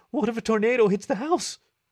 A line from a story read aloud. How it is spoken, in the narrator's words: She paused ominously before blurting out